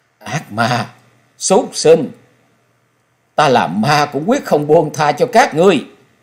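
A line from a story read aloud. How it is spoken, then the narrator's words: Shrill anguished shriek. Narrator (Vietnamese): mặt của Xảo Ngọc trong thê lương bi thiết, giọng của nàng rít lên như lệ quỷ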